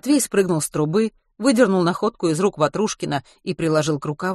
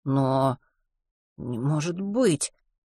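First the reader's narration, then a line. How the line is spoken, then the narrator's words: Bewildered. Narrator (Russian): растерянно сказал он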